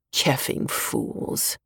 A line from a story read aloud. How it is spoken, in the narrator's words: he mutters